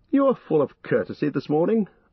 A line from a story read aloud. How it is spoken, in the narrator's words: laughed Legolas